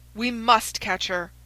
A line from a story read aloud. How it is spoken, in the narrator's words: cried Holmes between his teeth